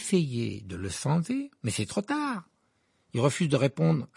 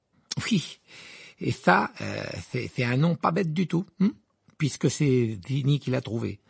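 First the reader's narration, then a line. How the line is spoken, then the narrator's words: Sarcastic retort. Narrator (French): répliqua Ron d'un ton sarcastique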